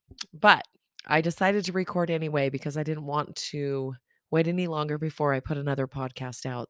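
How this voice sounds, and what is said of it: Low, worn-out, fading voice. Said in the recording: “my voice is a little bit lower than normal, but maybe it's soothing... I kind of sound very masculine... my voice is about gone”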